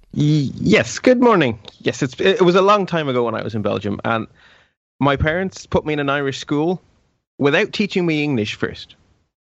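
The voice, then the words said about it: Irish accent. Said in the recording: “you're originally Belgian, but you're now in Ireland, as exemplified by your lovely accent”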